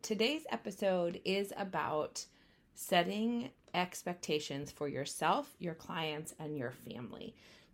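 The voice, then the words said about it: Slightly hoarse voice. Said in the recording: “Excuse my voice. At the time of recording this, I am a little bit hoarse”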